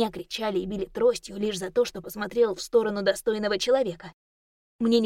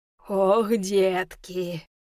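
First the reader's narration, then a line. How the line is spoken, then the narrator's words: Deep bass from above. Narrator (Russian): пробасил кто-то сверху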